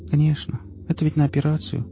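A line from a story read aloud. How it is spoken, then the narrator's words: Dejected voice. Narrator (Russian): упавшим голосом сказала она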